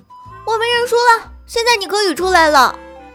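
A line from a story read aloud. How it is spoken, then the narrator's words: Calling out. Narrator (Chinese): 艾玛叫道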